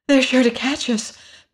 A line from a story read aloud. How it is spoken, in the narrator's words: panted the girl